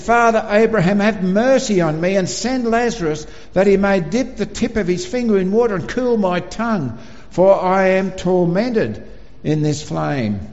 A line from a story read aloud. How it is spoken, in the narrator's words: he cried out and he said